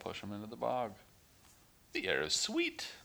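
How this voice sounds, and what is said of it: Cartoonish character voice. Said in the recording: “my Sir Didymus impression”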